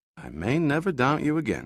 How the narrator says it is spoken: Giordino said under his breath

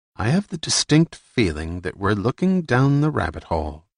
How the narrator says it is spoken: Remy murmured

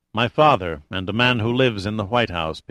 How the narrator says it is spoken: Pitt said coldly

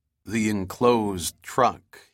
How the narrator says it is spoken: he said quietly

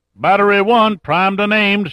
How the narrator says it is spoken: shouted back a man

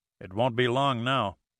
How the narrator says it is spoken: said Pitt grimly

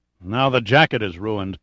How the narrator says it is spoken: Pitt grunted

